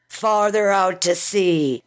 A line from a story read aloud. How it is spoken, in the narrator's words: he bellowed, raising his voice over the roaring wind and spray of the sea